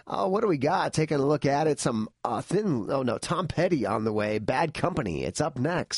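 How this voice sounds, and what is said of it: Strained, worn-out voice. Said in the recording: “I almost lost my voice there ... Still recovering my voice from a week's worth of just blasting out some gigs and screaming my head off.”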